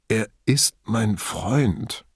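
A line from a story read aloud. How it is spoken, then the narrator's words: Weak faint voice. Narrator (German): brachte Pederiva mit schwacher Stimme hervor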